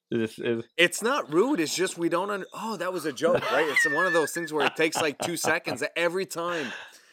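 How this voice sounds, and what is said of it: French Canadian accent. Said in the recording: “everybody knows I'm French. Obviously, you can probably hear in my accent ... French Canadians”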